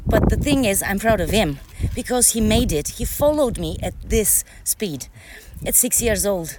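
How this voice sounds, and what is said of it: Out of breath, panting speech. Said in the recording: “we walked at a faster pace than it was planned. So that's why I'm like out of breath now.”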